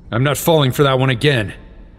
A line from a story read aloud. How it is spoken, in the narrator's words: Link growled